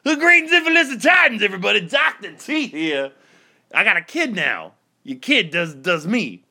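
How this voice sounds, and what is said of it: Muppet character voice. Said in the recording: “impression ... I'm Dr. Teeth. I sing, baby.”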